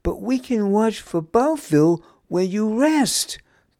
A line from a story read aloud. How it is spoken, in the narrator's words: pleaded Niamh